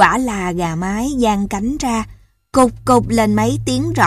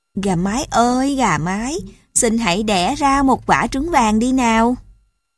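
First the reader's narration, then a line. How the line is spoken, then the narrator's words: Gentle. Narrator (Vietnamese): Cậu dịu dàng bảo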